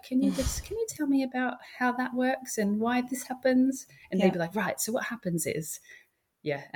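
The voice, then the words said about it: Australian accent. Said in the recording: “my Australian accent just helped me to sound a lot more, I guess, relatable”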